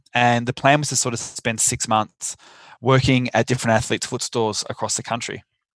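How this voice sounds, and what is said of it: Australian accent. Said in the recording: “with an Australian accent”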